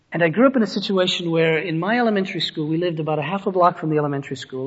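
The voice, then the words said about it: Western Pennsylvania accent. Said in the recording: “In a little town in western Pennsylvania, for all of you wondering, that is where the accent comes from, or the whatever it is that people wonder about with me.”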